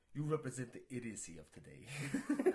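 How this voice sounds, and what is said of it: Bad impression, sounds vaguely Russian. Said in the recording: “such a bad bad Malkovich impression... It's Russian or something”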